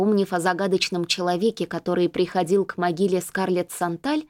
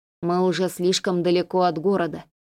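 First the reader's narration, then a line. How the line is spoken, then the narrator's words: Gloomy remark. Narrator (Russian): мрачно заметил Рис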